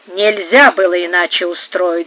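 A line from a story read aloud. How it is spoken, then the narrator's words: Muttering alone. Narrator (Russian): бормотала, оставшись одна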